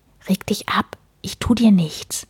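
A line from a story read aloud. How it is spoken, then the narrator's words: Whispering. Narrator (German): flüsterte Stain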